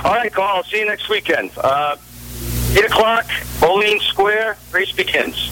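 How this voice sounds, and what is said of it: New York accent. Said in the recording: “New York City Fire Department Captain, ... in the Bronx. ... You got to love that accent, because that's how we talked up there.”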